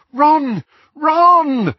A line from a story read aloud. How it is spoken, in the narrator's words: Hermione called, half sobbing, as she and Harry were buffeted by terrified guests